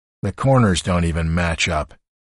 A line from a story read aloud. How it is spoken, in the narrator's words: Walt, who has apparently done some woodworking, muttered from the RV couch